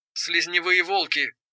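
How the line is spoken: Through gritted teeth. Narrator (Russian): процедила они

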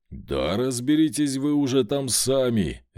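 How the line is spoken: Barked. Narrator (Russian): рявкнул

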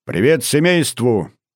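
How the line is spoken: Cheerful fatherly greeting. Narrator (Russian): весело поздоровался отец

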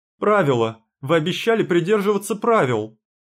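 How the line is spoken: Accusing yell. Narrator (Russian): заорал я, уличительно ткнув пальцем в костер

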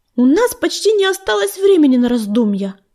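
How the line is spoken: Sharp remark. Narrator (Russian): резко заметила песчаная буря

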